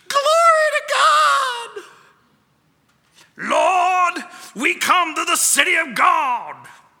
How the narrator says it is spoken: one of the people, a wrinkled old lady, cried out in ecstasy

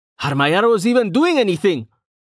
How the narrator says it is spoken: He yelled

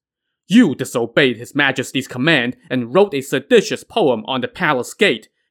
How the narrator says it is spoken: barked

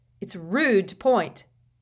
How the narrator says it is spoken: Ron snapped at a particularly minuscule first-year boy

